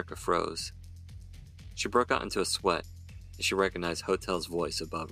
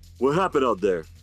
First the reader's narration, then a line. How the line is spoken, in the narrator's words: Hotel barked